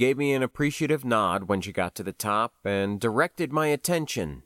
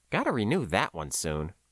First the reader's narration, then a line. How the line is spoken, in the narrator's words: I muttered